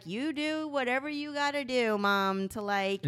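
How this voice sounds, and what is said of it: Matthew McConaughey impression. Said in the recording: “your Matthew McConaughey impression? ... Great impression.”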